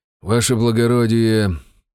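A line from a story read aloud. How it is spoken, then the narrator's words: Sighing. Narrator (Russian): вздохнул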